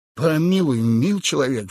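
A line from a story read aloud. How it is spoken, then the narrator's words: Pleading. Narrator (Russian): взмолился Ишки-Лаки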